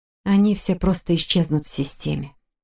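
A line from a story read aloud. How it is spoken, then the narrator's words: Muttering. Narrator (Russian): пробормотала я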